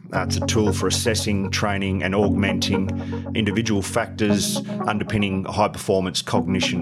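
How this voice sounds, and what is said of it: Strong Australian accent. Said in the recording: “I hope the accent wasn't too hard for you all to understand”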